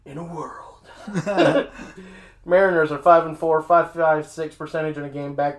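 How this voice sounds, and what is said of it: Dramatic movie-trailer announcer voice. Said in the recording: “movie phone voice guy ... Probably because of the phlegm in my throat”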